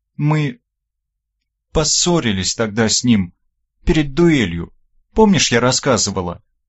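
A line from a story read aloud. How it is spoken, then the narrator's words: Stammering, unsure. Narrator (Russian): Запинаясь, неуверенно проговорила Оля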